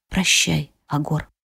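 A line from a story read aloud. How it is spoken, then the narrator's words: Very soft whisper. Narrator (Russian): выдохнула я и прошептала тихо-тихо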